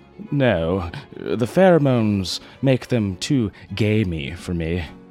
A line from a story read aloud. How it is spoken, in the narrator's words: Worthington sighed